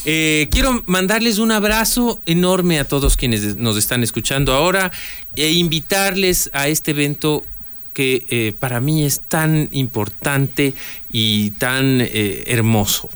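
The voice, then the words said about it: Announcer-style radio voice. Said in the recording (Spanish): “invite con voz de locutor”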